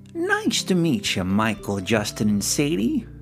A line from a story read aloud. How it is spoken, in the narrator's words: Merle said cheerfully